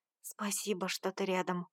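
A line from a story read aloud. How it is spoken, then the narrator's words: Whisper. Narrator (Russian): прошептала я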